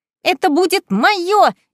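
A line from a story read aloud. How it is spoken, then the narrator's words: Shrieking. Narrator (Russian): визжала Беатрис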